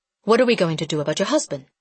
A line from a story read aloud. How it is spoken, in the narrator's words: Brave Orchid asked quickly